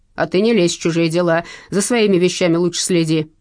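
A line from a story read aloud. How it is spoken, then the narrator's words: Man snapping back. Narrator (Russian): огрызнулся мужчина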